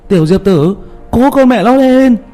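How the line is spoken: Loud shout. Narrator (Vietnamese): hét lớn

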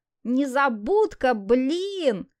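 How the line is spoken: Howl. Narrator (Russian): взвыл Тимур

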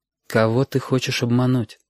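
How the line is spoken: Quiet question. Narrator (Russian): спросила мама тихо

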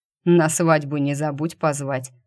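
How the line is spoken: Snorting chuckle. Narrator (Russian): хмыкнул

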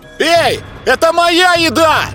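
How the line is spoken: Loud shout. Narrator (Russian): громко крикнул

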